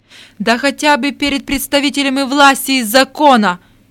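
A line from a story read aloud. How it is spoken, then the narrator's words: Furious breathless shout. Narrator (Russian): крикнул прокурор, задыхаясь от злости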